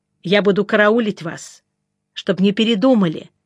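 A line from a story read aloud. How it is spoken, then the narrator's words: Stern. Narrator (Russian): строго сказала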